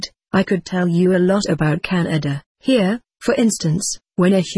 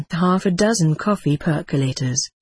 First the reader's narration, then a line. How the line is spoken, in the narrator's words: she sighed